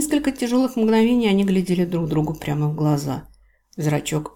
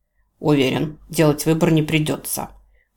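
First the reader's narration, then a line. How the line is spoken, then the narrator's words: Hissing through teeth. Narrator (Russian): прошипел сквозь зубы Ниал Коренной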